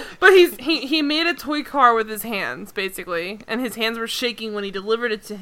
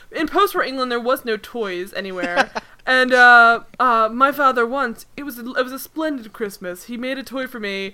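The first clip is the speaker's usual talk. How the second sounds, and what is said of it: Bad put-on accent. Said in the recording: “you have the worst accent work I've ever heard in my life”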